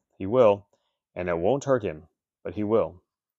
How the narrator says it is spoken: said the grandmother calmly

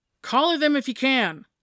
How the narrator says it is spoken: she yelled back

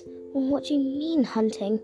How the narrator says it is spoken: He stuttered, shaking his wobbly piglet legs

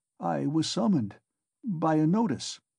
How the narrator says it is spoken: Raskolnikov faltered

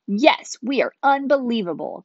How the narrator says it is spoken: Kai yelled

